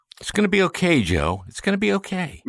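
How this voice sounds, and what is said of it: Impression of Joe Biden. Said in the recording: “my impression of Biden doing his dad.”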